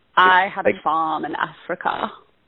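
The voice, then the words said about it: Meryl Streep's subtle Danish accent. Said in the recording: “a subtle accent... the Danish accent”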